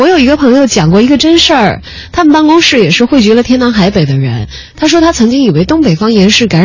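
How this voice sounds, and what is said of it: Usual voice. Nothing is said of it.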